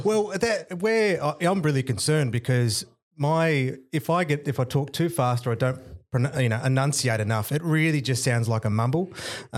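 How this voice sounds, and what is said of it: Broad Tasmanian Australian accent. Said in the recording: “I'm that proper Tasmanian accent ... if I get too tired, I liken it to a bagpipe ... starts off with that sort of low tone”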